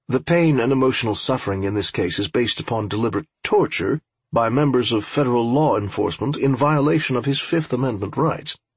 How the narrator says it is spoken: Colt said evenly

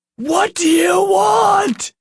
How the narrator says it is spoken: Nick screamed

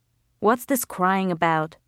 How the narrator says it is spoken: Rashid said crossly

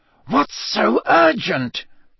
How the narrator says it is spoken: Snape hiss

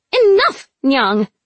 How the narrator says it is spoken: Venka snapped

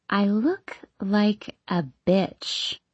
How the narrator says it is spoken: she says slowly

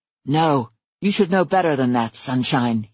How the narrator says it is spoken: he growled

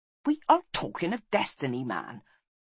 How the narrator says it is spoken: snapped Taliesin

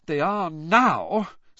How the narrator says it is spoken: said Hermione, in an exasperated voice

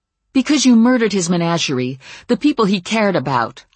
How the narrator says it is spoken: I said hotly

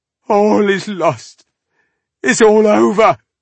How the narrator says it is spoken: the man sobbed

